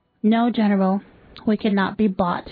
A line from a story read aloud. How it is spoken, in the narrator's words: replied the president